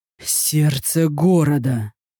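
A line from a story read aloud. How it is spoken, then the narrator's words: Ominous rasp. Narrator (Russian): Зловеще прохрипел он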